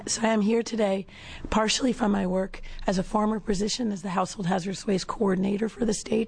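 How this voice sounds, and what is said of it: Very hoarse, strained voice. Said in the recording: “I have terrible laryngitis. I'll do my best. I'm sorry.”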